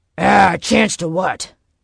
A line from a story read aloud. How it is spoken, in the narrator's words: Knox growled